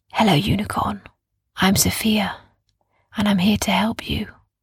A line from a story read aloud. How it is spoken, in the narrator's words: did she whisper